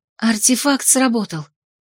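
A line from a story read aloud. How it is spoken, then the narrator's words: Silent thought, relieved exhale. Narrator (Russian): мысленно выдохнула я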